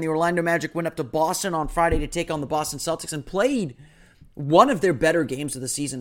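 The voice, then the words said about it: Slightly hoarse voice. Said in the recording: “my voice is probably a little hoarse. You can probably tell”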